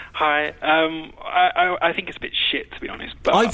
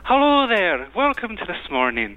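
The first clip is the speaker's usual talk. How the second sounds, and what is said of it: Scottish woman's voice impression. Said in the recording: “That's quite a good Scottish accent.”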